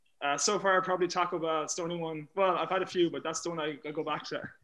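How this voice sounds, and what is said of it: Irish Galway accent. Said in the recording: “what is the best accent in Ireland? ... Oh, Galway. ... My accent's most neutral.”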